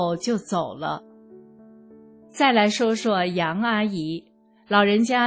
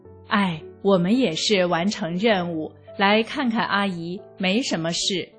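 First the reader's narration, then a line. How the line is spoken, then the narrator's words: Sighing policeman. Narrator (Chinese): 另一个警察叹了一口气说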